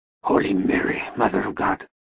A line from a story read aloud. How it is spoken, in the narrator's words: Max whispered